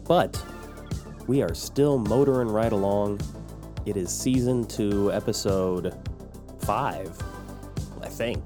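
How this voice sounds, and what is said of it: Voice sounds sick, under the weather. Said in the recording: “I'm sure you can hear it in my voice, but I am a little bit under the weather”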